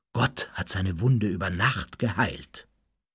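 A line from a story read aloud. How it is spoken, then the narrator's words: Reverent murmur. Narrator (German): raunte es andächtig durch die Klosterzellen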